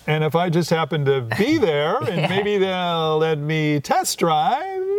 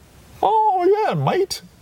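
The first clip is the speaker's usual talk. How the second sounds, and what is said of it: Put-on Cockney British accent. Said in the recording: “How's your British accent? ... I could be a Cockney kind of guy.”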